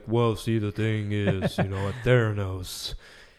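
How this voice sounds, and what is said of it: Deep-voiced Elizabeth Holmes impression. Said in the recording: “she talks with this deep voice”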